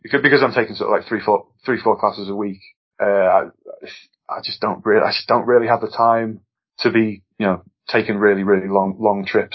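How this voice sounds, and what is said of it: Noticeable regional accent. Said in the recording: “as you can tell from my silly accent”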